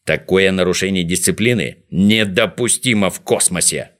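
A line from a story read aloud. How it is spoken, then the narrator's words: Irritated grumble. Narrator (Russian): с раздражением проворчал Незнайка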